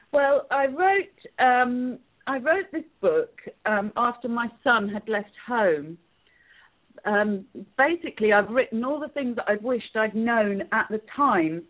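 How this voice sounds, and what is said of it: English accent. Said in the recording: “you're going to hear a nice little accent because ... is with us today from England ... With my English accent.”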